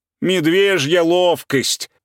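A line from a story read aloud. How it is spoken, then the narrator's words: Shout. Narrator (Russian): крикнул Уля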